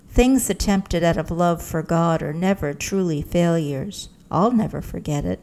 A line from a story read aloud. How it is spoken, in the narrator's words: he just chuckled and said